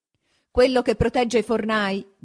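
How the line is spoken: Loud ringing shout. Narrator (Italian): gridava una voce sonora

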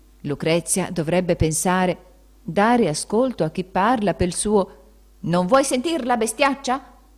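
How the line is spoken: Very loud shout. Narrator (Italian): Queste parole furono gridate così forte

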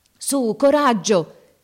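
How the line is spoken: Shouted. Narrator (Italian): gridava

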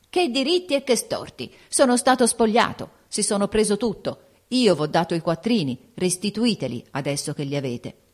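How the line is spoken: Shouted. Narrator (Italian): E siccome Don Eugenio tirò in ballo la rinunzia ai propri diritti, egli gridò

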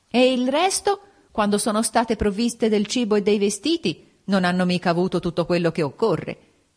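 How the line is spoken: Yelling. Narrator (Italian): Urlava

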